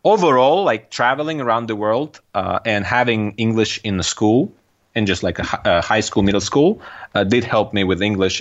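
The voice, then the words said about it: Russian-accented English. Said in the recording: “heavy Russian accent ... I do, of course, still have an accent”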